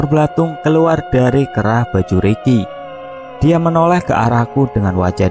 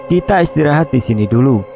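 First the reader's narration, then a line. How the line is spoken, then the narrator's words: Plain. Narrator (Indonesian): kata Ricky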